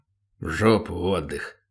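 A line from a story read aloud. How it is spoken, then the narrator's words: Grumbling. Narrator (Russian): проворчал Батон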